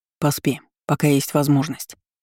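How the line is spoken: Gentle suggestion. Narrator (Russian): мягко предложил

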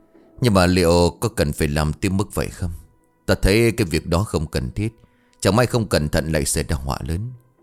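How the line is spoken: Quiet questioning. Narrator (Vietnamese): lão già vẫn nhỏ giọng thắc mắc

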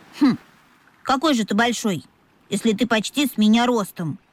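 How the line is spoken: Young creature's snort. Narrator (Russian): фыркнул дельфиненок

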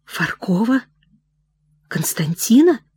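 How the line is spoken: Trembling voice question. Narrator (Russian): дрогнувшим голосом спросил Прохор

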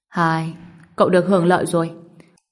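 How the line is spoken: Sighing. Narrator (Vietnamese): Đại thần Côn Ngô thở dài nói

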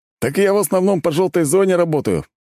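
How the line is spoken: Proud snort. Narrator (Russian): с гордостью хмыкнул мужик

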